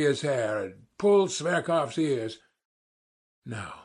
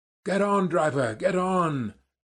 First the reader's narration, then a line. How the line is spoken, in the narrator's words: I cried to the driver